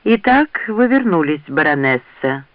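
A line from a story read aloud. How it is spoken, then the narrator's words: Calm. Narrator (Russian): спокойно произнес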